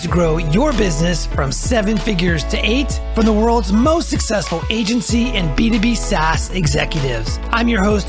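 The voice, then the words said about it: Distinctive radio announcer voice. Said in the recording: “I love your radio voice ... my voice is somewhat distinctive”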